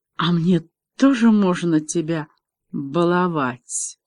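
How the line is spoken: Groan. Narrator (Russian): Девлин застонал

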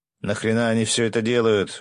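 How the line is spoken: Shouted angrily. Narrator (Russian): зло крикнул Егорыч

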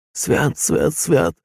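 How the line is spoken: Wheezing. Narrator (Russian): просипел Емельян

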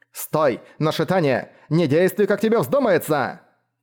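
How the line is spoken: Shouting. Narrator (Russian): кричала Мора

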